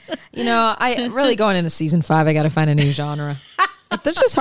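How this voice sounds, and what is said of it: Usual voice. Nothing is said of it.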